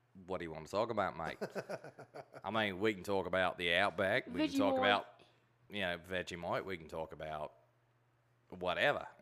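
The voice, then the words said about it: Put-on Australian accent. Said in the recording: “He can do an Australian accent to a T. ... I heard you can do a Australian accent really good.”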